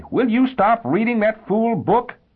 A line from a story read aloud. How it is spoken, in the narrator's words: because he was afraid he might be, he yelled at Omane